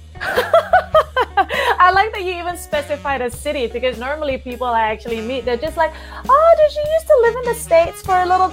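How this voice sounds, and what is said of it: Malaysian-Australian accent. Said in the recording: “I love that accent ... that's not a Brooklyn accent”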